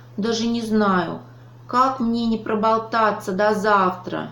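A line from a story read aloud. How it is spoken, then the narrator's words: Sighing hedgehog. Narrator (Russian): вздохнул ежик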